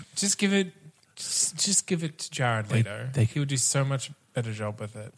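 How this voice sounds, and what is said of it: Sarcastic delivery. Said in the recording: “I'm being sarcastic, obviously.”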